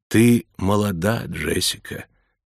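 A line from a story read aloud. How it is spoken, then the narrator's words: Soft, gentle. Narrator (Russian): мягко заговорила Туту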